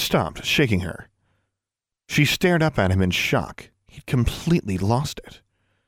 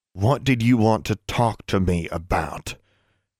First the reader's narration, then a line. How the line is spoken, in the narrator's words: grated through his teeth